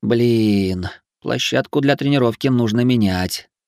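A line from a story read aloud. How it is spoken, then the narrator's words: Sighing. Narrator (Russian): вздохнул я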